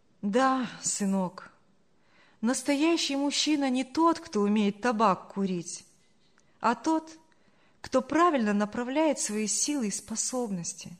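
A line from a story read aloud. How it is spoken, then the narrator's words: Sad. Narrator (Russian): грустно проговорила Саша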